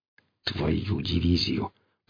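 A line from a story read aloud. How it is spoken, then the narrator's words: Through gritted teeth. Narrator (Russian): процедил гриф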